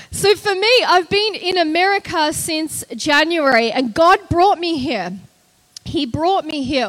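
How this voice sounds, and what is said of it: Australian accent. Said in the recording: “I'm Australian. You can hear from my accent”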